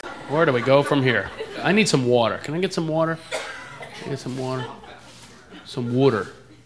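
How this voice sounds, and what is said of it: East Coast American accent. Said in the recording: “I'm from back east. That's why I talk like that. ... people make fun of my accent all the time”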